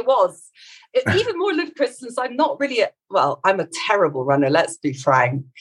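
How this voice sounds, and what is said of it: Scottish accent. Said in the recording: “you're definitely not from Morocco. I can tell by your accent ... I'm actually from Scotland, I'm from Edinburgh”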